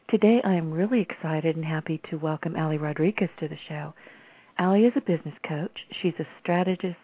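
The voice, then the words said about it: Slightly raspy voice. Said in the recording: “I'm a little bit raspy,”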